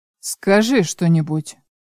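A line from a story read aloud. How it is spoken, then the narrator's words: Gloomy request. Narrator (Russian): мрачно просит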